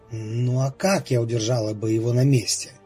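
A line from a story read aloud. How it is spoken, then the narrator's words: Quiet defensive young woman. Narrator (Russian): тихо оправдывалась девушка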